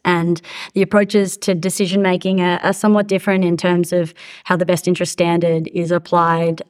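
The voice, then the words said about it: Australian accent. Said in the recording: “as you can hear from my accent, I'm Australian”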